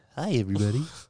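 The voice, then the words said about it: Barney the dinosaur impression. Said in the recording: “I used to be able to do Barney”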